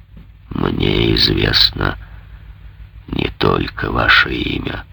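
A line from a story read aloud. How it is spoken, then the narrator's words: Sepulchral voice. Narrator (Russian): ответил за могильным голосом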